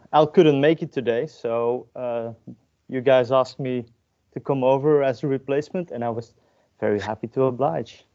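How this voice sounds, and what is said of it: Slight non-British accent. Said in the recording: “You might notice a little accent because I'm not from the UK. I'm actually living in Belgium.”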